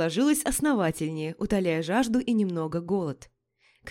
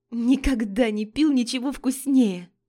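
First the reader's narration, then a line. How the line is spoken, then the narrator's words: Sincere exclamation. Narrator (Russian): Искренне воскликнула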